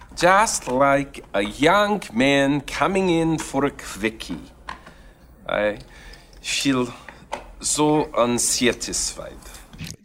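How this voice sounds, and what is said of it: Bad put-on accent. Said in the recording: “It's a bad accent. I really believe it's bad”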